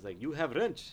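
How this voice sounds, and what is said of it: Put-on foreign accent, broken English. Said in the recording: “That's a good accent.”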